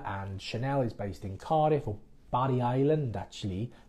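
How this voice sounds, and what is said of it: Put-on Welsh accent. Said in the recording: “That's my best Welsh accent you're going to get.”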